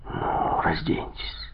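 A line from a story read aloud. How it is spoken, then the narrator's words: Whisper. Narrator (Russian): прошептал он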